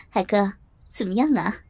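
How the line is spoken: Smiling woman. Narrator (Chinese): 萍姐笑着对海哥说

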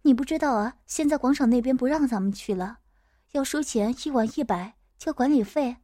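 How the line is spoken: Sighing. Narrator (Chinese): 丁香叹了口气说

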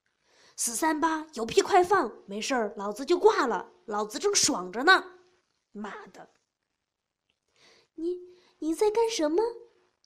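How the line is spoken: Shaken voice. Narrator (Chinese): 婷婷 声音也开始变了

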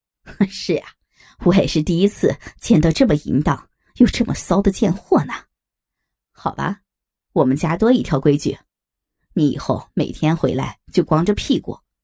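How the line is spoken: Laughing. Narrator (Chinese): 亚林也笑着说

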